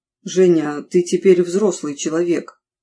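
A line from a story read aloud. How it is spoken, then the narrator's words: Unexpectedly hollow, muffled voice. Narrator (Russian): начал он неожиданно глухим голосом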